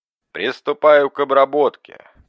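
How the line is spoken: Mechanical monotone voice. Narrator (Russian): практически машинным голосом проговорил здоровяк

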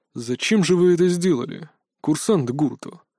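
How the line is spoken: Surprisingly calm question. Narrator (Russian): Все еще на удивление спокойно осведомился директор

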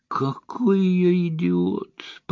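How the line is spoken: Groaning. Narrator (Russian): простонал он

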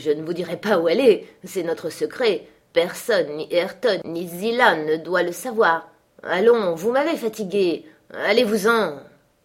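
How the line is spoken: Exclamation. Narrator (French): s'écria-t-il

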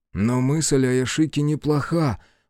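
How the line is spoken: Sudden mutter. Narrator (Russian): пробормотал вдруг Биру

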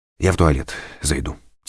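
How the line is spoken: Quiet. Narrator (Russian): тихо сказал Данилов

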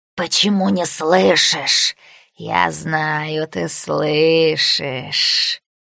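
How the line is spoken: Hissing in ear, shadow. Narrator (Russian): Тень шипела прямо в ухо

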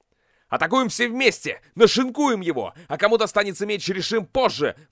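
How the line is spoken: Shout from crowd. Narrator (Russian): выкрикнул кто-то из толпы

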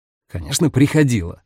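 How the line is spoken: Snapped. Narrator (Russian): огрызнулся Дамиан

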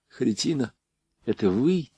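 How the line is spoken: Quiet question. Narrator (Russian): тихо спросил он

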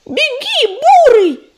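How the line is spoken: Yell. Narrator (Russian): завопила белка

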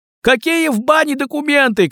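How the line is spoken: Shouted. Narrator (Russian): крикнул кто-то

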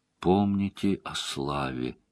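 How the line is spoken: Quiet. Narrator (Russian): тихо произнесла

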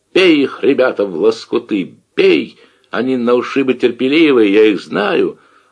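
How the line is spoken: Wild yelling. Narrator (Russian): орет дурным голосом

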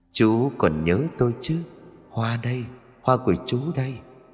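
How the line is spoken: Young woman's soft whisper. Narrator (Vietnamese): một cô gái trẻ khẽ thì thầm

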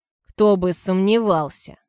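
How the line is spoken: Wry scoff. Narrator (Russian): хмыкнул Антон

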